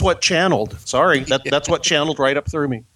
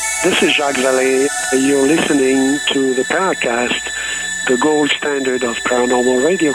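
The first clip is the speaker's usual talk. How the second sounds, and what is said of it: Weird, strange put-on voice. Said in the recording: “with that weird voice ... the channeled strange voice”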